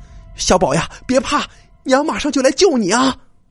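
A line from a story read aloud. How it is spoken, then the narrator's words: Shouting down a well. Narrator (Chinese): 对井里喊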